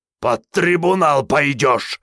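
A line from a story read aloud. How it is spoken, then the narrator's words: General's uncontrolled roar. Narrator (Russian): взревел генерал, чувствуя, что его несет, но не в состоянии уже остановиться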